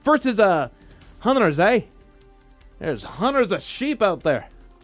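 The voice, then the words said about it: Attempted Scottish accent. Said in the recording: “I'm going to give you guys my best impression of it. I can do some Scottish”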